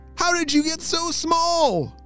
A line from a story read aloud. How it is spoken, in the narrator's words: Mackenzie shouted